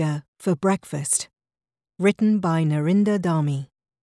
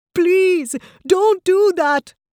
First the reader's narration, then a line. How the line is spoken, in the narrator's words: cried Ram